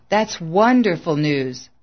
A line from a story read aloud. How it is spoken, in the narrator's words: gasped